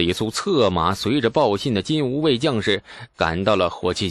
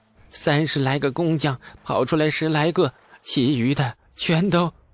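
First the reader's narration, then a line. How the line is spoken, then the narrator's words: Tearful voice. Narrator (Chinese): 陈塘带着哭腔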